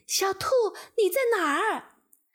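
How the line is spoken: Anxious mother shouting. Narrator (Chinese): 兔妈妈 急得大喊

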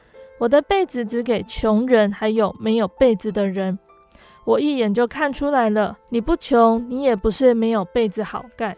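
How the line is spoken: Calm, faint smile. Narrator (Chinese): 那个拼被人他只是淡淡的笑说

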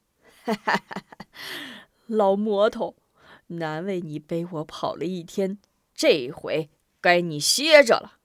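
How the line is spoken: Hearty laughter. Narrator (Chinese): 匡三……哈哈大笑

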